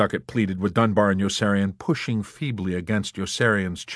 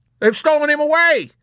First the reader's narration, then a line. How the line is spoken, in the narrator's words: screamed someone else